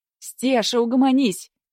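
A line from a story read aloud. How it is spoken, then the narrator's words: Shouting into the dark. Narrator (Russian): крикнула Аврора в темноту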